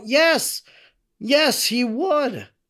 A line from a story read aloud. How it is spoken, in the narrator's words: all raised their hands like children at catechism and cried out